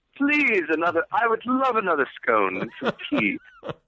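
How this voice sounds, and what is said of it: Put-on British accent. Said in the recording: “I suddenly had a British accent”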